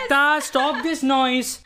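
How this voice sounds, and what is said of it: Shouting. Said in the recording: “Why are you shouting on Mukta?”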